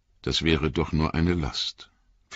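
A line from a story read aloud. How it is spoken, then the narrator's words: Quiet, to herself. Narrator (German): fügte sie mit leiser Stimme wie zu sich selbst hinzu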